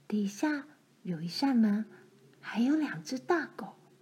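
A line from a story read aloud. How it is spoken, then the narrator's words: Low voice. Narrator (Chinese): 罗兰低声告诉她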